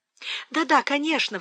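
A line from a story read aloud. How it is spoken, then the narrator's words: Embarrassed exclamation. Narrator (Russian): воскликнула Фанни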